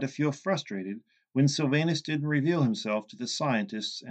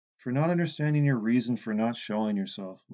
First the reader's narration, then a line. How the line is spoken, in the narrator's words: Lucas said